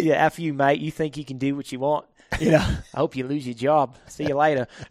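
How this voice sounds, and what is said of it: Put-on Australian accent. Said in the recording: “Can you do it in an Australian accent? Yeah, I want some authenticity here ... nicely done”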